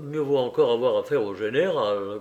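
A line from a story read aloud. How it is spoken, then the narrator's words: Sad grumble. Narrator (French): grommela tristement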